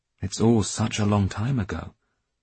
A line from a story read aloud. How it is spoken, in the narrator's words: Dmitri said